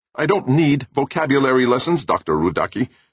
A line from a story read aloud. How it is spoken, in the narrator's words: Meek snapped